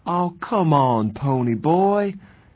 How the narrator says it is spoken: Soda pleaded

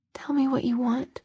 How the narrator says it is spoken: he said in a whisper that couldn't quite disguise the hoarseness in his voice

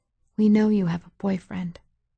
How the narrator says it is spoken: she whispered

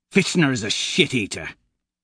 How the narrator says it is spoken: he sneers

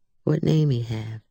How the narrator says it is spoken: asked Charlie

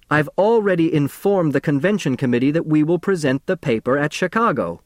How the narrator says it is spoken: Professor Niemer shouted

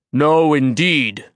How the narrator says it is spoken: his voice boomed

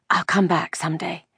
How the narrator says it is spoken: Ellen whispered fiercely

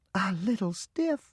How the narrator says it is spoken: Mama exclaimed

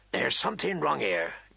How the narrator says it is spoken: Garrett muttered

